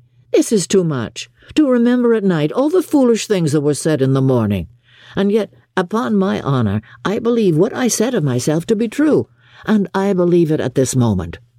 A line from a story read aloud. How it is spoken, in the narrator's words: cried Bingley